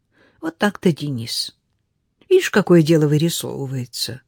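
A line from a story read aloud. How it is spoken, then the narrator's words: Sighing. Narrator (Russian): Она вздохнула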